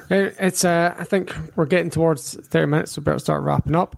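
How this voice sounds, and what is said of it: Scottish accent, Highlands-Glasgow mix. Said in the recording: “I sound like I'm from the north of Scotland ... the Highlands, which is where this kind of twang comes from ... they say I sound like I'm from Glasgow”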